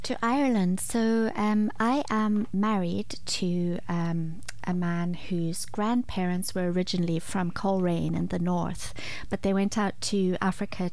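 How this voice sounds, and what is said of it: Soft-spoken gentle Zimbabwean accent. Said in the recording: “You're very softly spoken. That's your lovely Zimbabwean twang ... It's beautiful. It's gentle.”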